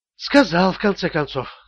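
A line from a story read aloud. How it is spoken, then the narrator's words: Sighing. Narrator (Russian): вздохнула Джоди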